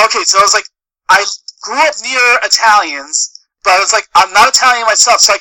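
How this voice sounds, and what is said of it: Usual voice. Nothing is said of it.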